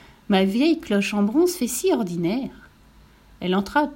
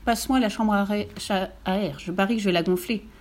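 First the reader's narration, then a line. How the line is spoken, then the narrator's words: Plain. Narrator (French): dit le cheval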